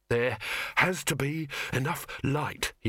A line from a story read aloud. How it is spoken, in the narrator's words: he panted